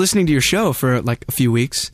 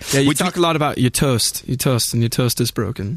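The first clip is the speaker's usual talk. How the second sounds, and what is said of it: Put-on Northern English accent. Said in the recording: “good impression of Grimmie ... It's about a good accent ... She's going Coronation Street.”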